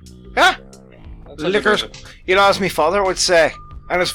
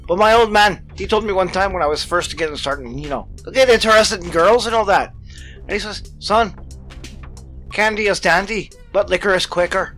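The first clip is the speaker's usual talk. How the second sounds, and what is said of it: Poor imitation Irish accent. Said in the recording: “I'm doing an Irish accent, so poorly I might add”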